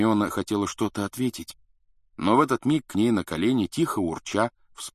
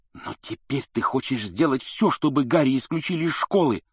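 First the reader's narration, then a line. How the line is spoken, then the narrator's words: Angry hiss. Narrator (Russian): зло прошипел Рон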